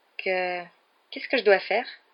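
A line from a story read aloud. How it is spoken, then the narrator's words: Stammering. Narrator (French): balbutia-t-il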